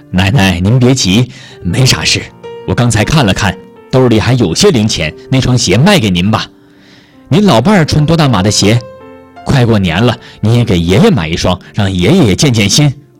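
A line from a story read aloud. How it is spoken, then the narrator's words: Smiling. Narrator (Chinese): 小张笑着说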